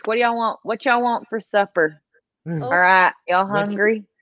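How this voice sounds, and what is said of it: Southern US accent. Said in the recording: “Southern lady... my accent will come out... it comes out pretty easily”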